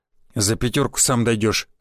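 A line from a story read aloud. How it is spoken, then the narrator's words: Smirking grunt. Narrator (Russian): хмыкнул водила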